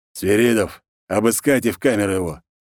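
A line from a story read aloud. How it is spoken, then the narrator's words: Smirking grunt. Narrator (Russian): хмыкнул волк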